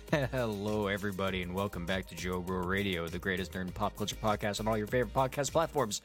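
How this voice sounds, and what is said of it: Running out of breath. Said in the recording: “Ran out of breath there.”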